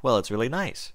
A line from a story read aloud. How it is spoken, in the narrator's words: Spike said